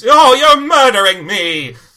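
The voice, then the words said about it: Put-on mid-Atlantic accent. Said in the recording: “my attempt at a mid-Atlantic accent ... You were a little too Hepburn with that. ... I was shooting for the Hepburn. ... You passed Hepburn, went straight to County Fair.”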